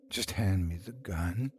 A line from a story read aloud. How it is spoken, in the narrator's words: a voice said softly